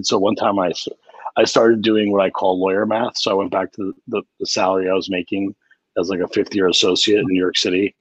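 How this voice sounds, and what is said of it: Smoker's voice. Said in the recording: “I don't know if you're ever a smoker. I was, you can probably tell by my voice.”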